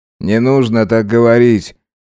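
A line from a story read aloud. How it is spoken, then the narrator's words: Gloomy request. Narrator (Russian): мрачно попросил Керим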